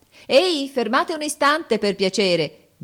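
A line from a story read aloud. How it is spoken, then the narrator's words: Cheerful shout. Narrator (Italian): grida allegramente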